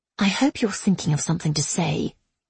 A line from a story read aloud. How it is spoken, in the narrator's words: she said quietly